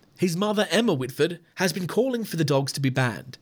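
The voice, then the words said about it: Reads news in a put-on accent. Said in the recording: “I'm going to stop the accent”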